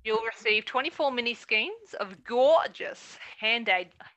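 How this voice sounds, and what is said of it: Broad Bogan Australian accent. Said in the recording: “Oh, my Bogan accent.”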